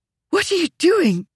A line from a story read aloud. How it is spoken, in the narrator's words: she practically gasped